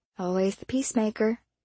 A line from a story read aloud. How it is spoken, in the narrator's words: Dylan muttered